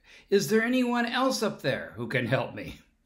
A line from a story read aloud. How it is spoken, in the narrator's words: the man yelled out